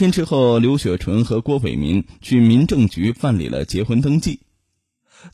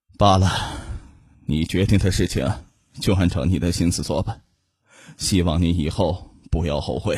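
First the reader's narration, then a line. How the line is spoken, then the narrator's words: Soft sigh. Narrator (Chinese): 父亲轻轻的叹了一口气，说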